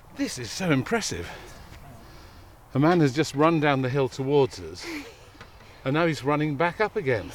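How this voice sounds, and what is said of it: Slightly out of breath. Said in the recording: “I'm a bit out of breath.”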